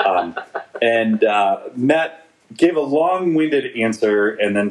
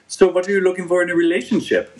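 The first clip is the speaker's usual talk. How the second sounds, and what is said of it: Put-on Russian accent. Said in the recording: “That's the best Russian accent I can do.”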